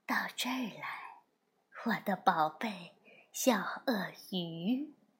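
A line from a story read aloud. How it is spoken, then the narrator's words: Very gentle soft whisper. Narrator (Chinese): 用一种非常温柔的，就像小草在说悄悄话的声音，轻声地说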